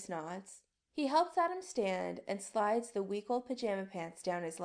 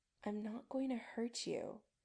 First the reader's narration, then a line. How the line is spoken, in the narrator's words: Chris says gently